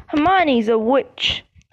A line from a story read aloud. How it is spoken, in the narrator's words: Harry snarled